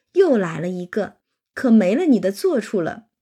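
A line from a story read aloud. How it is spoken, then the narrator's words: Group laughing. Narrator (Chinese): 大家都笑说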